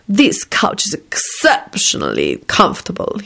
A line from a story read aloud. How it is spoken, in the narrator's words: he purred in a blissfully satiated voice